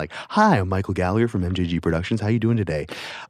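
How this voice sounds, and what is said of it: Put-on radio announcer voice. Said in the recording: “put on a voice ... I just did a radio voice”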